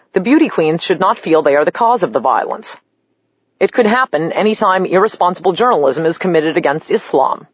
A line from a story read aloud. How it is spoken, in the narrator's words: The president of Nigeria tried to downplay the Muslims' murderous rampage by cheerfully explaining